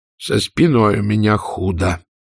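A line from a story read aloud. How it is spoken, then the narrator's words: Gloomy warning. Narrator (Russian): мрачно предупредил ее Питер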